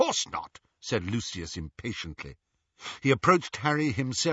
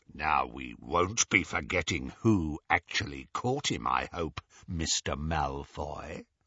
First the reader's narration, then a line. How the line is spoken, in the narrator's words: said Greyback menacingly